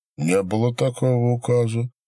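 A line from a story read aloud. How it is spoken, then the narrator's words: Calm merchant. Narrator (Russian): отвечал купец спокойно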